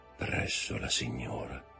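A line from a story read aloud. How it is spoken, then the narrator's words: Murmur. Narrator (Italian): mormorò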